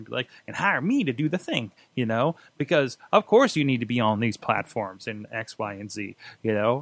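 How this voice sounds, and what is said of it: Carny salesman voice. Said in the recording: “that person doing social media has that kind of carny whatever accent that I just did there”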